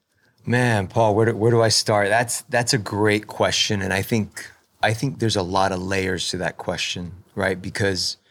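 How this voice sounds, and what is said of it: Smooth, pleasing radio voice. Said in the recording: “your voice is so good, Pastor. ... it's my radio voice.”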